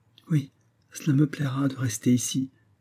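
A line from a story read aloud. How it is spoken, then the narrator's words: Murmur. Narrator (French): murmura Mary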